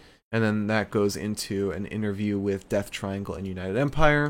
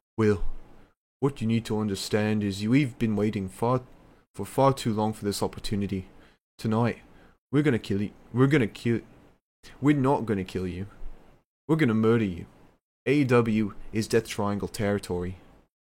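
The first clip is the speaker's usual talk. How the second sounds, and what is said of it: Imitates another person's voice. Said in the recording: “I can't do a good Pack accent. Pack impression.”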